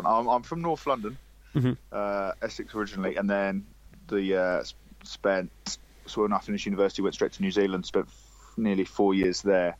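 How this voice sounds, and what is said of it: English accent with New Zealand twang. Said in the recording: “you don't sound like you're from Leamington ... it's an amalgamation of accents. ... Just can't shift the twang.”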